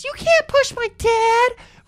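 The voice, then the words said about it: Imitates a girl's voice. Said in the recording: “That was not his Gary Daniels impression. It was close. That was his daughter impression.”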